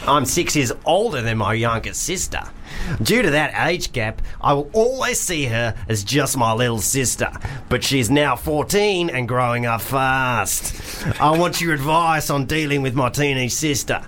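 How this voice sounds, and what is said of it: Put-on Australian accent. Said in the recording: “I'm just going to do Australian because I don't really know what the difference is.”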